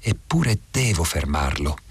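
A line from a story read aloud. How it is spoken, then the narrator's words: Murmured. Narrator (Italian): mormorai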